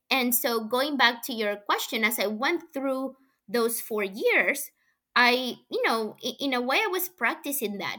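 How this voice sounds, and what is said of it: Non-native English accent. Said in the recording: “because I have an accent ... somebody who's a native English speaker”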